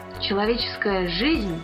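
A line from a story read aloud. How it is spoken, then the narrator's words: Plain. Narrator (Russian): сказал Андерс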